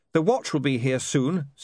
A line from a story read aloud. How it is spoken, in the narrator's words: said William